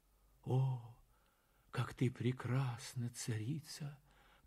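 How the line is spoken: Whisper. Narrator (Russian): прошептал он

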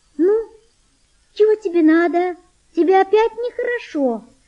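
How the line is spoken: Thin gentle female voice. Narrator (Russian): сказала она тонким нежным голосом

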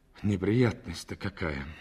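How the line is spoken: Sighing. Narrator (Russian): вздохнул

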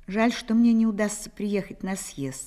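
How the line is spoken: Plain. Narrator (Russian): сказал он

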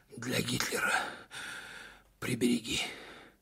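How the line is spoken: Strained, breathless exhale. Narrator (Russian): через силу выдохнул комбат

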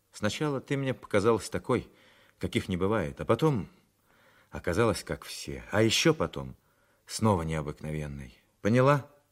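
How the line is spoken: Suffering tone announcement. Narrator (Russian): Сорокин страдальческим тоном объявил

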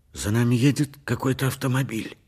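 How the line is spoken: Hoarse voice. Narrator (Russian): хриплым голосом произнес Поль

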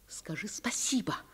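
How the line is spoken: Dramatic whisper. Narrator (Russian): прошептала мама драматическим шепотом

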